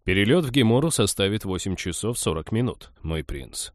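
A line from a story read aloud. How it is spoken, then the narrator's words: Indifferent tone. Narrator (Russian): сообщил капитан равнодушным тоном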